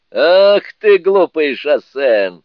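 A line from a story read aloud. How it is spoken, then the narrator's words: Laughing. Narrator (Russian): смеясь, сказал Суню-кун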